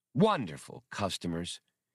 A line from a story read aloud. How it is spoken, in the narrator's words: sighed fondly